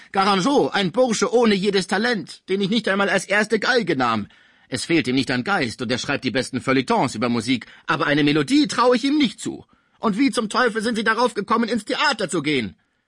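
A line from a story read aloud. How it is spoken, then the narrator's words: Angry shout. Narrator (German): rief Pons wütend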